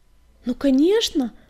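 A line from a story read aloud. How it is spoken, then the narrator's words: Exclamation. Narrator (Russian): воскликнул он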